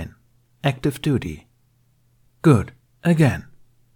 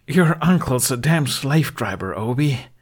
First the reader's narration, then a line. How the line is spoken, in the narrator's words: he panted at his classmate